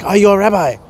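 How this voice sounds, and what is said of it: Put-on Asian accent. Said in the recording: “she said it to me in an Asian accent”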